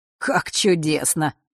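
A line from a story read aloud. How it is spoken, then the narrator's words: Cheerful chuckle. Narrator (Russian): хохотнул он, явно возвращаясь в прекрасное расположение духа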